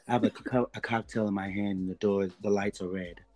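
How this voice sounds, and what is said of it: Put-on sultry, seductive voice. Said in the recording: “That's your sexy voice?”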